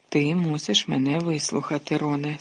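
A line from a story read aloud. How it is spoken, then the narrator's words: Calm. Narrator (Ukrainian): спокійно мовив Люпен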